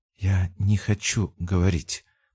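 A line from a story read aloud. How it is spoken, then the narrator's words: Whisper. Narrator (Russian): прошептала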